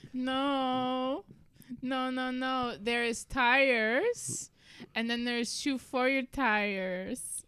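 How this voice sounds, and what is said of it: Put-on Italian accent. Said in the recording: “I am Italian. That's what this accent is.”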